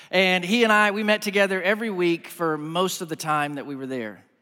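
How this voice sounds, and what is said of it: Texas accent. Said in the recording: “If you were trying to place the accent, it's Texas.”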